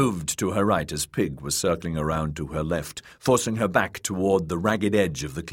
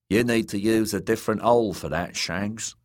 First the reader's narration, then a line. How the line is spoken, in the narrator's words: said Timian in his Dornish drawl